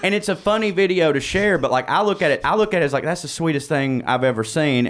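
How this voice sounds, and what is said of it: Southern US accent. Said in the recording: “everybody in the South has one. If you hear my accent,”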